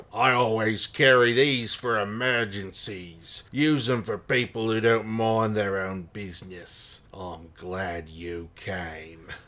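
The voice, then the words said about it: Put-on Cockney accent. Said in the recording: “I don't know why I read him in a Cockney accent”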